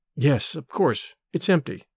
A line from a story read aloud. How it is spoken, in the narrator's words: I muttered, disdainfully